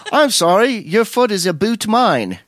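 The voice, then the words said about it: Poor put-on Canadian accent. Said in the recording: “I can't do a Canadian accent. ... No, I can't do it. I sound like Terrence and Phillip.”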